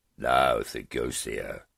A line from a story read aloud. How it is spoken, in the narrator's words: said in a condescending tone